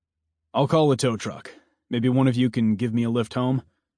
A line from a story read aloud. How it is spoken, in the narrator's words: Mason asked